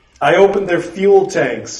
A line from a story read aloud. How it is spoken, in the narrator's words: Blythe said, laughing